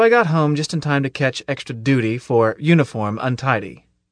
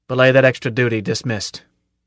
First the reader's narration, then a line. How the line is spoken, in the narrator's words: he growled